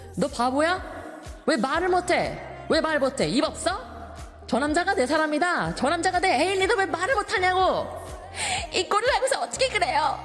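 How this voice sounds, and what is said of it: Imitates a male drama character snapping. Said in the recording (Korean): “성대모사 ... I'm going to try to do an impression of a specific scene from this drama ... the man basically snapped at this lady”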